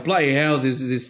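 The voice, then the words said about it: Random put-on accent. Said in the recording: “I'm giving him some random accent.”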